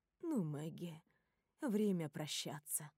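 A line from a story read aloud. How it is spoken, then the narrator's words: Soft. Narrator (Russian): мягко говорит Клара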